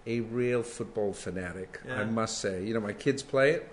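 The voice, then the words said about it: American accent. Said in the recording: “I have an American accent”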